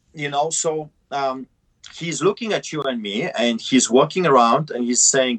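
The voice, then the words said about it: Heavy foreign accent, broken English. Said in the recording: “I speak broken English with a heavy accent.”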